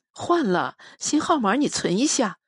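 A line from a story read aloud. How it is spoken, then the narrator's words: Laughing question. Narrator (Chinese): 我笑着问他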